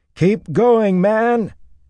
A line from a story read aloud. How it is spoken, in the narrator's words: he shouted at the top of his lungs